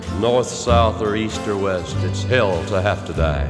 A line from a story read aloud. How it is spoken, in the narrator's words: someone muttered